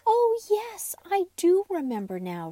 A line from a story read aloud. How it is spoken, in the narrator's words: Raggedy Andy laughed